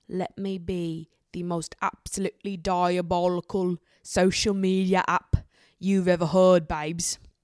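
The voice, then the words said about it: Faltering put-on British accent. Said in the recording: “My British accent is failing me again. I feel like it's getting worse.”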